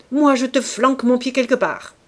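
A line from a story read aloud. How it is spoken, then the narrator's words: Snarling, barking. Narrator (French): les crocs dehors, ils aboyaient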